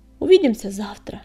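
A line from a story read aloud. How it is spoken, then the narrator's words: Regretful shout. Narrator (Russian): с сожалением крикнул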